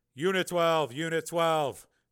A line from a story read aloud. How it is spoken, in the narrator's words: he shouted into the mic